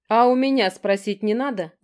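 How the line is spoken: Angry bark. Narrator (Russian): Зло рявкнул Гор

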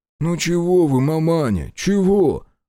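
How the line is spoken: Grunted. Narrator (Russian): буркнул Яковлев-младший

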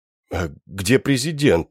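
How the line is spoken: Crestfallen question. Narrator (Russian): спросил я упавшим голосом, уже понимая, что он не врет

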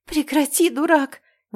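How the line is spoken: Breathless exhale. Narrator (Russian): выдохнула я

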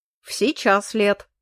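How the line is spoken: Amused grunt. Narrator (Russian): хмыкнул Эрик

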